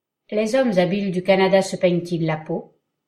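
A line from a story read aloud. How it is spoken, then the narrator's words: Cold question. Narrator (French): demanda-t-il froidement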